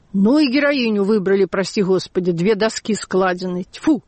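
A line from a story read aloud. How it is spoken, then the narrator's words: Angry. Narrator (Russian): парикмахер сказал сердито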